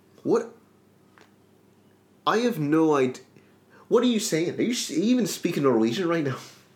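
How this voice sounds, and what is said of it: Faux Irish accent. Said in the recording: “the accent you're putting on ... I'm just mimicking the faux Irish accent you're using right now”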